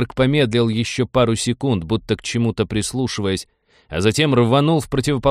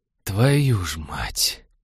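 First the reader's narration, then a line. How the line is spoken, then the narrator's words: Barely breathed out. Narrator (Russian): еле выдохнул Станислав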